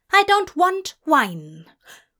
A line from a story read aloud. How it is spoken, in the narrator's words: Aziraphale barked